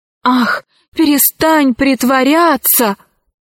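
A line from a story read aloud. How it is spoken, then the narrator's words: Exclamation. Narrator (Russian): воскликнул Арсекки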